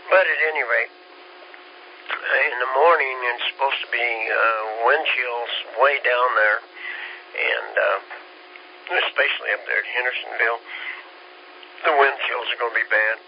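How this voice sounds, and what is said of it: Slightly hoarse voice. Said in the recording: “I'm a little hoarse, by the way”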